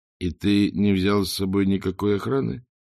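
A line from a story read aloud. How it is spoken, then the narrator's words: Muttering. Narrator (Russian): пробормотал Ринсвинд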